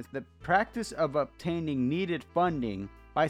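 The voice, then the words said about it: Spanish accent slipping through. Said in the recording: “My Spanish accent came through. I heard that.”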